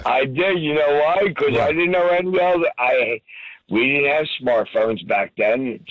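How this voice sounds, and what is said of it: Hoarse, fading voice. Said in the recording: “I can hear it in the voice. You can hear it in your voice ... I'm losing my voice”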